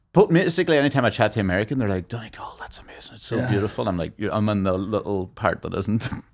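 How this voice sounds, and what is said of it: Irish Donegal border accent. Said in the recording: “my accent's kind of like a mixture. It's not straight up Donegal. Just that Lifford along the border”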